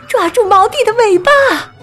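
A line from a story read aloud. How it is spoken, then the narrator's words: Loud shout. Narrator (Chinese): 夜莺妈妈跟着大叫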